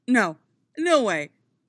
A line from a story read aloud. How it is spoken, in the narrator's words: Tony scoffs, waving a hand in disbelief